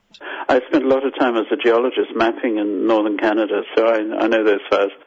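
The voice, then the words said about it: Zimbabwean accent. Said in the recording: “I'm Zimbabwean, as you probably got from my accent.”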